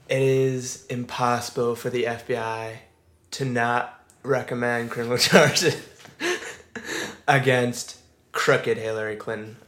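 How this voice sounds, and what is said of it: Imitates another person's voice. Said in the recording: “you do a good impression.”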